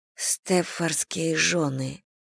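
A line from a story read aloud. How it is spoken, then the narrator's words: Low-voiced repetition. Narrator (Russian): вполголоса повторила Селия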